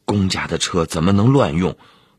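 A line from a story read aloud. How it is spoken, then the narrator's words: Hasty refusal. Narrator (Chinese): 钱其虎急忙拒绝说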